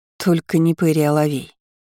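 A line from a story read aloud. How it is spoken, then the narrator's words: Too loud exclamation. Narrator (Russian): воскликнула я и, кажется, сделала это слишком громко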